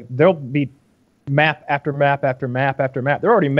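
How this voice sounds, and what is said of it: Usual voice. Nothing is said of it.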